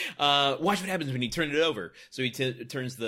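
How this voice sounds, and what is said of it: Usual voice. Nothing is said of it.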